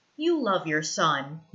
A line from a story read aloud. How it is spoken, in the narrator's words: he says